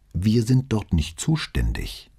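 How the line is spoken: Plain. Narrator (German): sagte Brunetti

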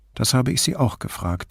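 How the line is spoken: Dry reply. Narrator (German): erwiderte Grifoni trocken

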